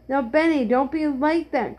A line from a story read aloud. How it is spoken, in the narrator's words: cried Jesse